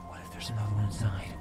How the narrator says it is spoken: I whispered

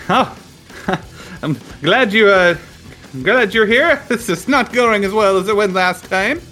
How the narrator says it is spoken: Graham shouts out

